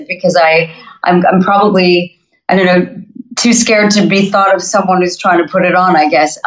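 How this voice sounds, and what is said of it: North American accent. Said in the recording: “I haven't lost my North American accent”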